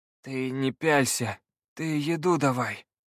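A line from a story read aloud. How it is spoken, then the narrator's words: Weak demanding voice. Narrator (Russian): слабым голосом потребовал волшебник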